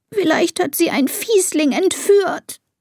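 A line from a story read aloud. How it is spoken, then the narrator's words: Sobbing. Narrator (German): schluchzt Elisa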